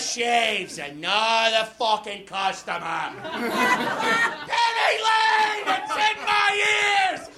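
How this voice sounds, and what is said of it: Imitates a comedian singing. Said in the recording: “this is my impression of Eddie Pepitone singing the hit songs of the Beatles”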